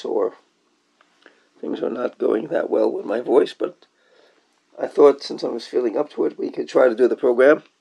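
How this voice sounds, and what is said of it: Hoarse voice. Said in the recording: “You can probably hear from my voice that I'm a little bit hoarse,”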